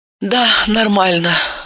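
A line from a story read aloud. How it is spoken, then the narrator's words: Sighing. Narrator (Russian): вздохнула та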